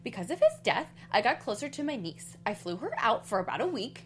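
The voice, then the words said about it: Impression of Ramona Singer. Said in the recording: “I'm trying to do, like, my Ramona impression. It's not.”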